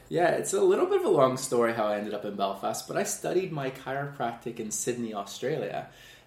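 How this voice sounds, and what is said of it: Canadian accent. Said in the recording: “listeners can probably pick up on your accent. You're ... from Canada.”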